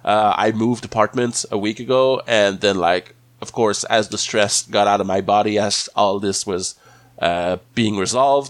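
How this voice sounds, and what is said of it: Voice sounds weird from a cold. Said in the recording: “my voice sounds a little weird this week ... I'm fighting a little post-stress cold ... It's just a cold, but it is, you might hear it”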